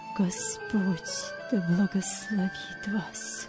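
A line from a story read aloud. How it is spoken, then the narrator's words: Choked whisper. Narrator (Russian): Вилли сдавленным голосом прошептал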